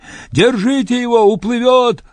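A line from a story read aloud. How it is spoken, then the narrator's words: Yelled. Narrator (Russian): завопил Патиорик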